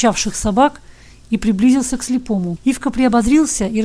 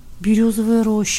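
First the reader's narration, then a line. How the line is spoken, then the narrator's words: Drawn-out drawl. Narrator (Russian): протянул Ивка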